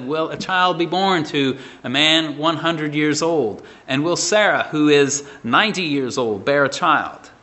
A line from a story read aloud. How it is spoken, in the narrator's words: laughed and said